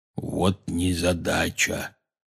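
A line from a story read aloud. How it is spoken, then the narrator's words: Quiet. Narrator (Russian): тихо сказал Хагрид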